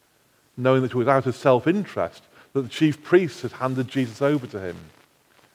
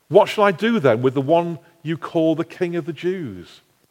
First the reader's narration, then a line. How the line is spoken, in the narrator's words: Pilate asked